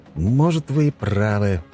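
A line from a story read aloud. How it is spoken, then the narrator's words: Sighing. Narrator (Russian): вздохнул я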